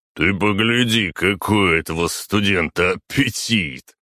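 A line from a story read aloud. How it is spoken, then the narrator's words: Chuckling. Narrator (Russian): хохотнул Григорий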